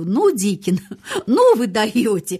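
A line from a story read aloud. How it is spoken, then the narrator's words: Muttering through laughter. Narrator (Russian): сквозь смех бормотала она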